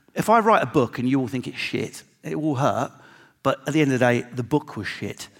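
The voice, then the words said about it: Strong regional accent. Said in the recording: “I know my accent's strong”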